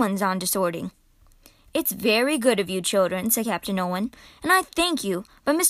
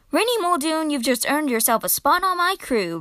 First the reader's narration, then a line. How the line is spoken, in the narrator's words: roared Captain Nolan